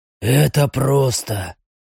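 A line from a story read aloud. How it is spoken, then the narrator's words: Muffled flat voice. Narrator (Russian): глухо произнес репликант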